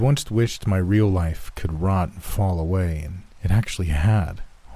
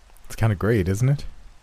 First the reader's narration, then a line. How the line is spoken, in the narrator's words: I said quickly, excited to finally talk to someone else in a genuine way in months